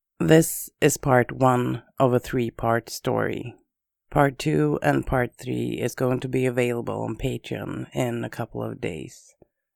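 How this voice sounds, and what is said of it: Voice affected by a cold. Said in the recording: “sorry about my voice ... I have a cold”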